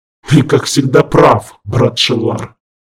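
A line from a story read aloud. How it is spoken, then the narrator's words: Loud. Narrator (Russian): громко произнес он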